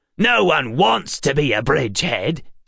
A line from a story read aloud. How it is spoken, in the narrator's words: snapped the left